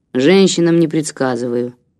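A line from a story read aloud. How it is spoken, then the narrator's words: Gloomy grumble, hermit. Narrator (Russian): мрачно буркнул отшельник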